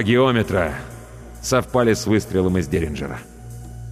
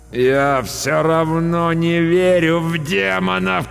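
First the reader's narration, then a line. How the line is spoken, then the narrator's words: Moaning. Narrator (Russian): простонал я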